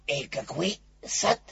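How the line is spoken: Whisper. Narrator (Russian): шепнул Пух Пятачку

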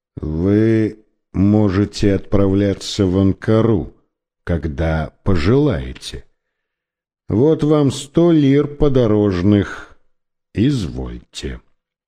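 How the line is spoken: Tired, dull voice. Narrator (Russian): тем же усталым, тусклым голосом проговорил

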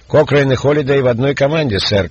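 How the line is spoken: Shouted. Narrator (Russian): крикнул ему Стивен

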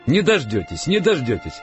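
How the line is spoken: Elderly cleric laughing. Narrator (Russian): рассмеялся митрополит

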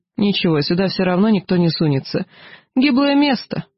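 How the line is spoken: Laughing. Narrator (Russian): Макс рассмеялся

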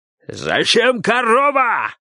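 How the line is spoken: Distant shout, approaching. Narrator (Russian): кричал он издали, приближаясь к ним

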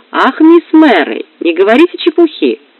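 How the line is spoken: Forced cheerful laugh. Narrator (Russian): ответила я, пытаясь весело засмеяться

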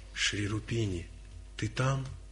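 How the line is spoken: Soft, gentle. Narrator (Russian): Прама-бхакта тихо, нежно, чтоб не испугать никого, произнес

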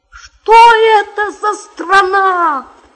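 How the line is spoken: Surprised exclamation. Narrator (Russian): воскликнул тогда удивленный главный буржуин

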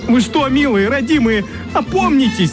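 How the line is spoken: Wailing. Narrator (Russian): Сладкий гусь вопил

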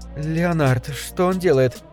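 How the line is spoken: Uncertain question, girl. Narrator (Russian): неуверенно спросила девушка

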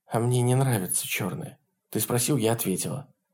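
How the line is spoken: Low husky voice. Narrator (Russian): сказала Шерон низким хриплым голосом

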